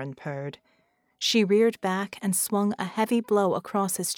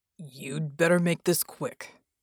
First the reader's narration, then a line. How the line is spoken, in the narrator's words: Bull rumbled